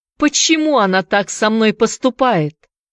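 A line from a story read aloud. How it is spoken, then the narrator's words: Shout. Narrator (Russian): крикнул он стеблем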